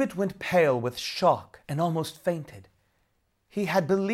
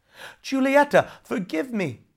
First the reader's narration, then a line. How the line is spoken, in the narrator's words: begged